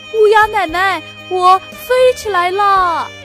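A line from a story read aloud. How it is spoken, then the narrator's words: Joyful shout. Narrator (Chinese): 他高兴地大叫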